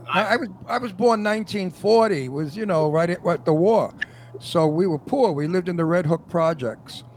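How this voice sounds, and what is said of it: Old-fashioned Brooklyn New York accent. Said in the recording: “I have an original Brooklyn, New York accent that's considered now antique ... my accent is the real deal”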